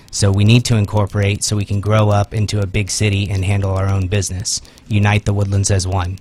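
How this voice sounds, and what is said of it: Imitates another person's voice. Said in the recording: “Is that your Gordy Bunch impersonation”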